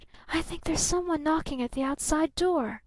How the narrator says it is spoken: she whispered

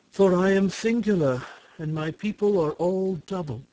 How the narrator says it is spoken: she answered, sighing

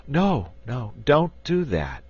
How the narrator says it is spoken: pleaded

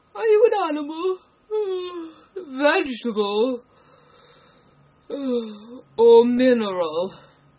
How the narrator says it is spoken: said, yawning at every other word

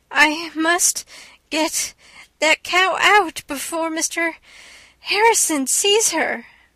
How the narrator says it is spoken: gasped Anne

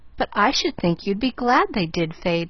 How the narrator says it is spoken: laughed Pollyanna

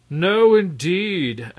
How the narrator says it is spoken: answered the Red Rogue mockingly

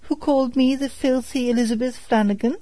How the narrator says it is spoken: cried the washerwoman, snapping her fingers contemptuously

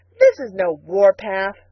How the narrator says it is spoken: scoffed Billy

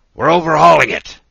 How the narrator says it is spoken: the Canadian would shout

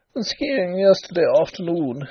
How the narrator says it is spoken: said he with a little laugh

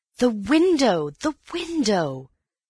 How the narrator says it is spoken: cried Antony

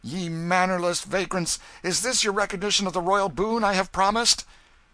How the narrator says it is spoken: He said more, with angry voice

